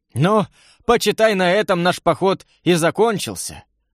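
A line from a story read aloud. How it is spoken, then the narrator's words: Regretful sigh, in pain. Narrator (Russian): Вздохнул с сожалением Семен и поморщился от боли в руке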